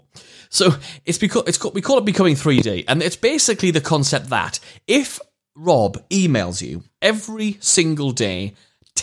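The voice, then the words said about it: Strong regional accent. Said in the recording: “my accent's a bit mad when I say 3D. I've been told it is before.”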